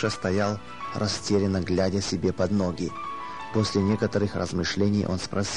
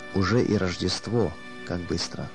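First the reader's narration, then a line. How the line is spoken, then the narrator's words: Said in trembling voice. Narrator (Russian): дрожащим голосом он проговорил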